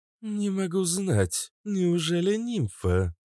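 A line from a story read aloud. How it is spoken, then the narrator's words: Dejected question. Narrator (Russian): упавшим голосом спросила Кобра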